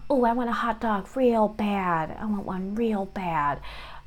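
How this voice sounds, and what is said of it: Imitates another person's voice. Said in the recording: “my best impersonation of a famous person? I can do kind of Jennifer Coolidge a little bit.”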